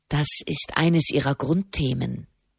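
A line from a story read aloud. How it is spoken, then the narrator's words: Quiet explanation. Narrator (German): erklärte Soderini leise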